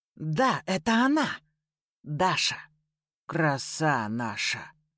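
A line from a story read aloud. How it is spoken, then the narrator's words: Barely audible, low growl. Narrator (Russian): Еле слышно добавил, сопроводив речь низким утробным рычанием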